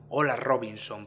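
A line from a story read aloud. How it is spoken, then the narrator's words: Plain question. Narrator (Spanish): preguntó él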